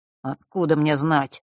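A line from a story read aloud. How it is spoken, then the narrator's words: Irritated mutter. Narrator (Russian): раздраженно пробормотал он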